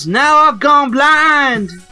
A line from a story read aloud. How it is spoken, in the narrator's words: Trixie yells